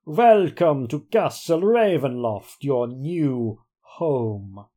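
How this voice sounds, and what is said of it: Count von Count aristocratic vampire accent. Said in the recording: “with the accent of an ancient aristocrat ... I am basing the voice on Count von Count out of Sesame Street”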